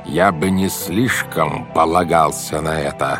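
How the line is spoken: Very menacing. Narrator (Russian): сказал он грозным-грозным голосом

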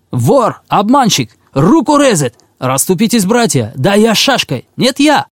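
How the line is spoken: Crowd yelling. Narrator (Russian): орали

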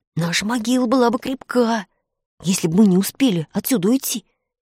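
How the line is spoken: Frightened whisper. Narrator (Russian): Испуганно прошептал Фред

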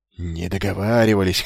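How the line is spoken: Hoarse mutter under breath. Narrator (Russian): хрипел он себе под нос

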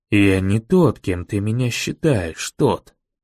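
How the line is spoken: Quiet, close to ear. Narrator (Russian): негромко произнес мэр, почти мне в ухо

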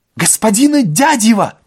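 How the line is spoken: Ecstatic shout. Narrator (Russian): восторженно закричал Полесов

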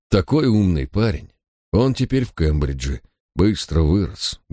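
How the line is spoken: Sad. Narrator (Russian): грустно заметил его старый друг

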